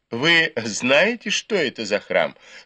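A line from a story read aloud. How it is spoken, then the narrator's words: Asked with laughter. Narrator (Russian): снова рассмеявшись, спросили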